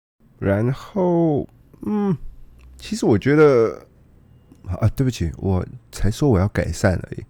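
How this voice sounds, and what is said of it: Noticeable accent, not quite Taiwanese. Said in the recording (Chinese): “我以为我的口音没有很重啊，至少有呃，maybe 八点五成像正常一般普通的台湾人会发出的口音，但我想，好吧，是我错了。”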